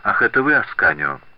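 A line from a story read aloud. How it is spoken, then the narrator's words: Cold noblewoman. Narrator (Russian): довольно холодно произнесла знатная дама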